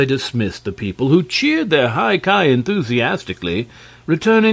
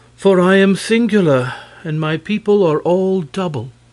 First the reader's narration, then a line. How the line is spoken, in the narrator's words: she answered, sighing